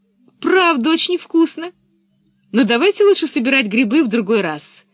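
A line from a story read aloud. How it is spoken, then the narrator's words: Cheerful. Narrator (Russian): сказала весело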